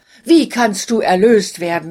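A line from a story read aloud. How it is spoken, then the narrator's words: Exclaiming. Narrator (German): rief er aus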